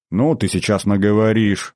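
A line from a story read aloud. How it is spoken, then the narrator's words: Pleased grumble. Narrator (Russian): проворчал я, пряча довольную ухмылку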